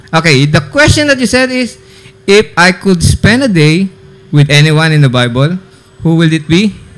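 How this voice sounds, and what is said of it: Put-on Filipino accent. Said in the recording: “Do I need to use my British accent or my Filipino accent here? ... Your Filipino accent. ... Filipino accent”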